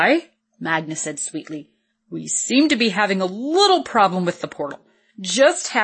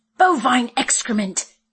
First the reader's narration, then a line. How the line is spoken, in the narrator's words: Lorelei exclaimed